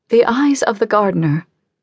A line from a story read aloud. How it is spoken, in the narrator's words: she said